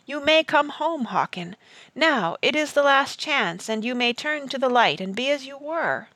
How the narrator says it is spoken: Merriman cried out

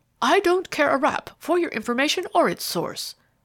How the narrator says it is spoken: the other interrupted impatiently

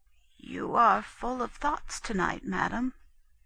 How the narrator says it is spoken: the old woman spake softly, and said

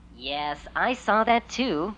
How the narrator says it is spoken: Queen Sophie chuckled

